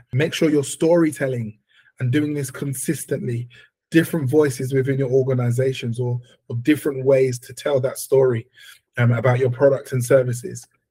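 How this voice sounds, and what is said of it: Voice not at its best. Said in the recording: “hopefully my voice gets a little bit better”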